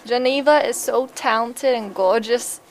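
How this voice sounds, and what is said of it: Put-on Southern US accent. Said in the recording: “I got Southern.”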